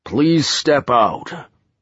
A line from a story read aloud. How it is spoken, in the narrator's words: the giant boomed